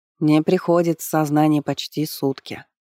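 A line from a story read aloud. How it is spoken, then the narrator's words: Dry reply. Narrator (Russian): сухо ответила жрица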